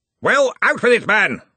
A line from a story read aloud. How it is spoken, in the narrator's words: roared Ridcully